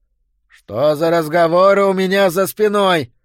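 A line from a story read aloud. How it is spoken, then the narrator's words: Shouted. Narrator (Russian): выкрикнул Боудич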